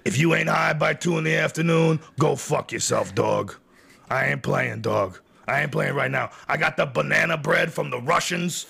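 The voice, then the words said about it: Imitates another person's voice. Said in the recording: “impersonation ... I can only do a couple impressions”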